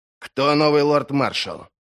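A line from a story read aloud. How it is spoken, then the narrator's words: Angry question. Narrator (Russian): зло спросил Крой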